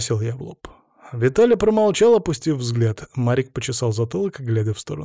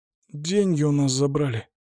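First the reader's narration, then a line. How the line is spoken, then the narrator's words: Mumbled. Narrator (Russian): пробормотал Марик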